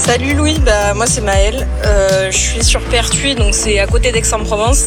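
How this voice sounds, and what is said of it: Regional accent on one place name. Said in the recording (French): “elle a pris l'accent uniquement sur Aix-en-Provence”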